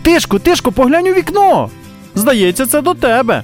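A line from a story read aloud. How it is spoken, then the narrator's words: Loud. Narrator (Ukrainian): хтось голосно промовив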